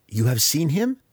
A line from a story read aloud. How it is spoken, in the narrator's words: Alton asked, his fingers tapping anxiously